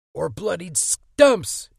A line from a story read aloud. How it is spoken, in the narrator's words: Eddie screamed